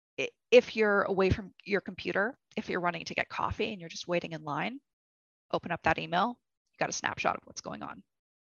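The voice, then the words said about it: Hoarse, strained voice. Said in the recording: “Losing my voice, cold season.”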